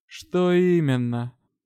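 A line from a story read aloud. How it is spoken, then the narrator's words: Tired. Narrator (Russian): устало уточнил лорд Элохар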